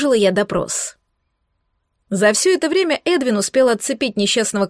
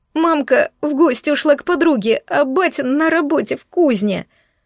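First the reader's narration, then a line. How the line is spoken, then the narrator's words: Sobbing. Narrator (Russian): рыдая отозвался он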